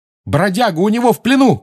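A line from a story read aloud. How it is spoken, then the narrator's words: Shout. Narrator (Russian): крикнул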